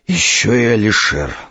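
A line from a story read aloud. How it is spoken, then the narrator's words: Sighing. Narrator (Russian): вздохнул Илья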